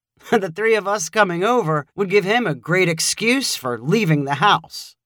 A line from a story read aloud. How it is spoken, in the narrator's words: Joey laughed and said